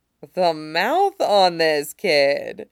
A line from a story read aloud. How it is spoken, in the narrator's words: Latong laughs